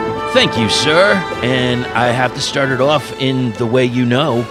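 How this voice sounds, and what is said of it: Usual voice. Nothing is said of it.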